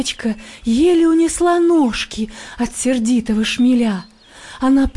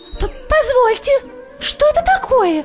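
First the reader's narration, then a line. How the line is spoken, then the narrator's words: Tiny creature's squeak. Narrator (Russian): запищала козявочка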